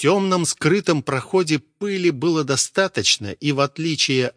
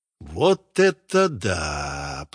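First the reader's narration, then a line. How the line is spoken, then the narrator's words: Drawn-out exclamation. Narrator (Russian): протянул Витя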